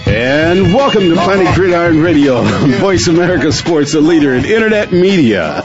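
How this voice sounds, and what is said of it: Booming announcer-style voice. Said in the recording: “nice booming auctioneer voice”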